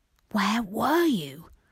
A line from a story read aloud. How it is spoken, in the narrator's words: asked in a furious whisper